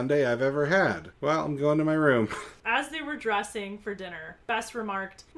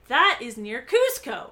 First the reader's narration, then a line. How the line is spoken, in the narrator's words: Carla said excitedly